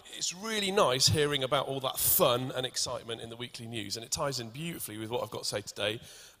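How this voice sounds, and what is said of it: Welsh accent. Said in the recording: “I'm Welsh, and the more nervous I get, the more my accent comes out”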